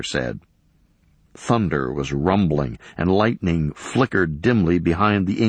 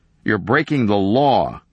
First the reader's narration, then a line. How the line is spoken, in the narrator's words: Kenner said